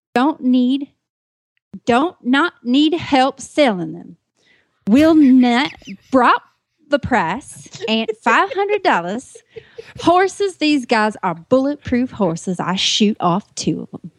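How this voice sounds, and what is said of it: Odd mixed British-Southern put-on accent. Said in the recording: “I'm not sure if that's a Southern accent. I'm not sure what the hell accent that was. ... I was kind of mixing a few regions up there. ... there was a little bit of British and a little bit of Southern and a little bit of I don't know what.”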